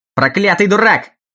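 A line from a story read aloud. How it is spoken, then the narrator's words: Shout. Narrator (Russian): крикнул мистер Томпсон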